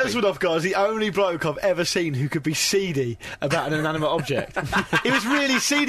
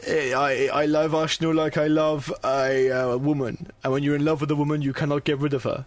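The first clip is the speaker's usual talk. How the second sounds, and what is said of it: Put-on Russian accent attempt. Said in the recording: “I can't do a Russian accent ... It's not Australian.”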